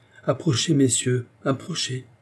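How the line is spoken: Plain. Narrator (French): dit le roi

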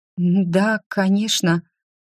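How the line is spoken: Trembling voice, agreeing. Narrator (Russian): дрогнувшим голосом согласилась я

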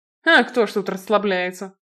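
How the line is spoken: Snorted. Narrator (Russian): фыркнул Блейн

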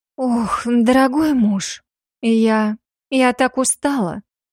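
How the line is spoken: Breathless, feigned exhaustion. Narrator (Russian): Выдохнула делая вид, что вот-вот свалюсь в обморок

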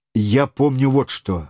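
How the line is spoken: Plain. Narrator (Russian): ответил Вильсон

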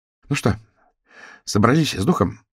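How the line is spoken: Breathy exhale. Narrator (Russian): выдохнула Сью

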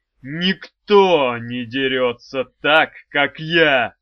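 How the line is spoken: Barked. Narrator (Russian): рявкнул Арей

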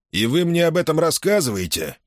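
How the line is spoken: Grumbled. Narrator (Russian): проворчал Саймон

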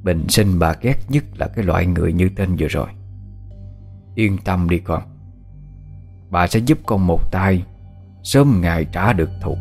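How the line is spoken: Cold, murderous reply. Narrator (Vietnamese): Đôi mắt bà Tự bỗng ánh lên một tia sát ý, bà lạnh lùng đáp

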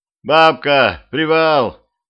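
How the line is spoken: Shouted. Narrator (Russian): закричал

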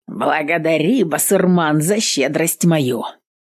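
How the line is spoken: Short laugh. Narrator (Russian): хохотнул десятник

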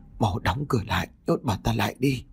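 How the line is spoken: Trembling old man. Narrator (Vietnamese): Ông Tám run rẩy nói

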